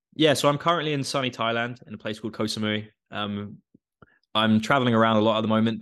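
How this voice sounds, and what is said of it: English accent. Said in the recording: “you may have the English accent”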